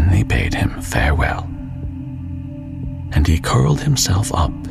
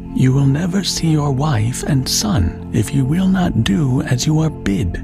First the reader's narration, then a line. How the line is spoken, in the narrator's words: said they